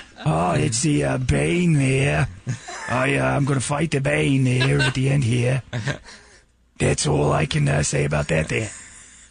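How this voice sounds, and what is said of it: Put-on Boston accent as Batman. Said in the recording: “Batman, what happened to your accent?”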